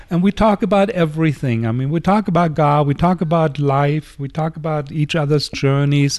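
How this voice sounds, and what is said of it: German accent. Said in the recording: “Inner city where? ... Berlin, Germany. ... Yes, that's hence the accent.”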